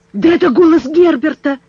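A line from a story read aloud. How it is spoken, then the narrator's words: Man's exclamation. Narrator (Russian): воскликнул журналист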